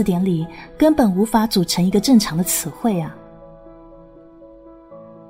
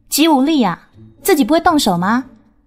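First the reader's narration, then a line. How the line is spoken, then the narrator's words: Terrified screaming. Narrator (Chinese): 那两个人像是看到鬼一样，忘我的尖叫起来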